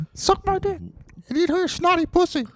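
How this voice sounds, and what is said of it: Mickey Mouse-like cartoon dog voice. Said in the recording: “Your dog sounds just like Mickey Mouse. Your dog sounds like Mickey Mouse with a little bit of my accent.”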